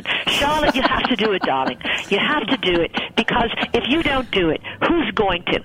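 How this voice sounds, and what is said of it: Put-on Australian accent. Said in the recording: “I'm going to do her Australian accent”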